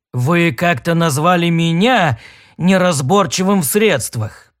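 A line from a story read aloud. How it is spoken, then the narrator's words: Growled. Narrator (Russian): прорычал торговец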